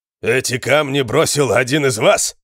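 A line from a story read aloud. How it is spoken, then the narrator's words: Shout. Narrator (Russian): крикнул он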